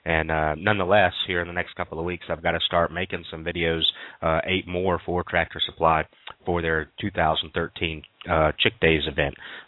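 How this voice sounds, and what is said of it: Slightly scratchy voice. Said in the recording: “my voice is a little bit different today. Yesterday afternoon, started getting a little scratchy”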